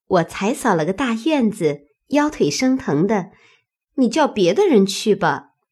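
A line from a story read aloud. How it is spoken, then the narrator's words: Laughing. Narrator (Chinese): 小婵便笑说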